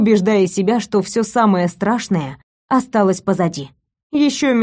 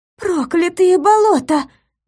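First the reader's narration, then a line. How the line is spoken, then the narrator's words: Agitated breathless exclamation. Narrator (Russian): взволнованно выдохнула Паулина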